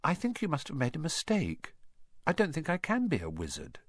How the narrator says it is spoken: he said quietly

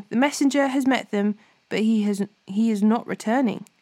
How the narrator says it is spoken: The watchman called out to the king

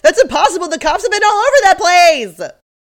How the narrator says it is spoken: Monique yells

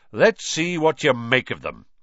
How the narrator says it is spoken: Lockhart said loudly

